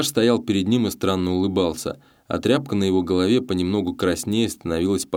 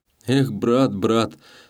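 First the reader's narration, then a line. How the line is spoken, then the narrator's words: Mournful sigh. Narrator (Russian): скорбно вздохнул Гаврила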